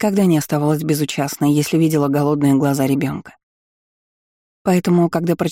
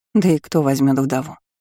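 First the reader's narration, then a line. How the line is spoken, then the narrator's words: Sigh. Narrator (Russian): вздохнула она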